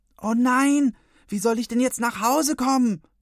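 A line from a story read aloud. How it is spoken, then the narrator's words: Screaming. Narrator (German): schreit sie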